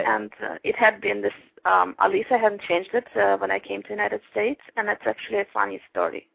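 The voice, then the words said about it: Uzbek, Russian-sounding accent. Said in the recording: “you have an interesting accent ... I came to the United States from Uzbekistan ... still having this nice KGB accent ... a very charming accent”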